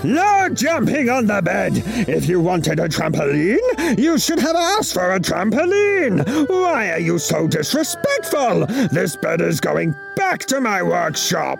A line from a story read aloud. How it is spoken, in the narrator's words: he would roar